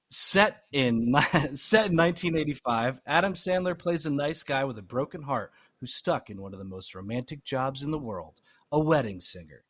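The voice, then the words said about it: Dramatic movie-trailer narrator voice. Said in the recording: “let me get my narrator voice on.”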